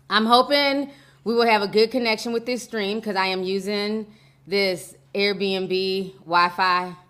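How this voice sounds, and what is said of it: Hoarse, nearly lost voice. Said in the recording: “My voice is like damn near gone.”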